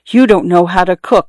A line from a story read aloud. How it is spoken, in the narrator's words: whispered one night to Gita, when Srikanth had left a little rice on his plate